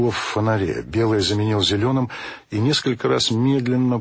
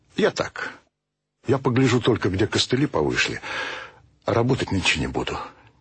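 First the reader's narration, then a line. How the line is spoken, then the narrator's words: Quiet, father. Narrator (Russian): тихо сказал отец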